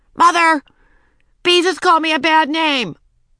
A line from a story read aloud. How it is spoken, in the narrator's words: called out